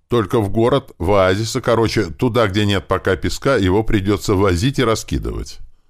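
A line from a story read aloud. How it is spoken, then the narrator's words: Plain. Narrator (Russian): сказал я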